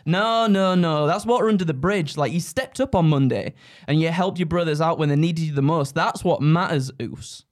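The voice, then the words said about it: Roman Reigns impression. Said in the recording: “doing like Roman Reigns, but he's not got this accent, obviously”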